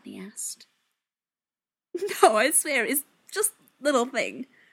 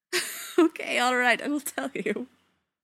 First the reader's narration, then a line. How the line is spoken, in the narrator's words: Zelenka said, still suppressing the odd giggle